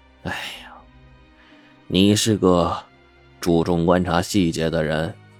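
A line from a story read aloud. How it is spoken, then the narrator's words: Sighing. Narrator (Chinese): 他叹了口气说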